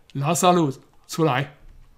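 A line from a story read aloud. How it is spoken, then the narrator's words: Loud call. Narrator (Chinese): 大声呼叫说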